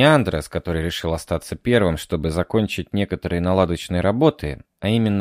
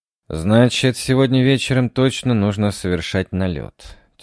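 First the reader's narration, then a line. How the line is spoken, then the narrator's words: Heavy sigh. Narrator (Russian): тяжело вздохнул командир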